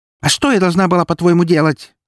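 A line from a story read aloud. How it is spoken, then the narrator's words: Barked retort. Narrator (Russian): рявкнула она в ответ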